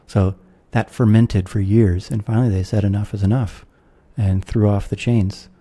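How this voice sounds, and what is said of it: American accent. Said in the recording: “I'm an American, you can tell from my accent”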